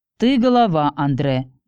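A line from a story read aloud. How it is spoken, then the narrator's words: Man's snorting reply. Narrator (Russian): Мужчина хмыкнул в ответ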